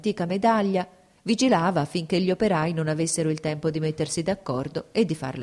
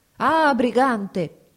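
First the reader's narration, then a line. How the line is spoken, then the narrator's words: Shouted. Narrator (Italian): gridò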